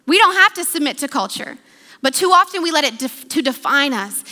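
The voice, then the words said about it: American accent. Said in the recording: “I'm an American with an American passport, educated in America. That's my accent.”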